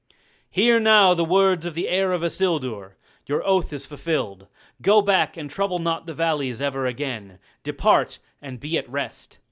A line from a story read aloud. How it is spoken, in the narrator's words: Aragorn spoke in a loud voice to the dead men, crying